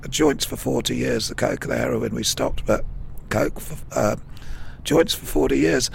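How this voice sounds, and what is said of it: Damaged, impaired speaking voice. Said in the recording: “you've obviously got this little situation going on with your voice ... my voice is bad because, like, now, 4 years ago, I got diagnosed with vocal cord cancer”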